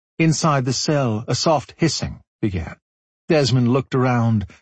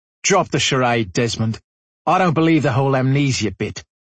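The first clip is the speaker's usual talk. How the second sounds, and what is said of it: Thick Australian accent. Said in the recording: “spoke with a thick Australian accent.”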